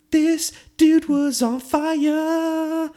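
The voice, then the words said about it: Imitates a singer, badly. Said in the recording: “he was like an Alicia Keys song out there ... That was a bad impression.”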